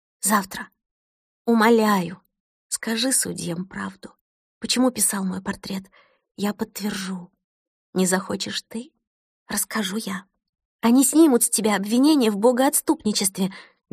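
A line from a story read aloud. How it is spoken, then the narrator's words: Fervent whisper. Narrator (Russian): горячо зашептала Кристина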